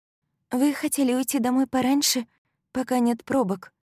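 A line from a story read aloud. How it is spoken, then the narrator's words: Timid reminder. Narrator (Russian): робко напомнила она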